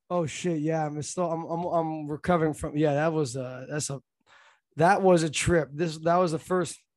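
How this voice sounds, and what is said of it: Sounds sick, congested voice. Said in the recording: “you sound sick”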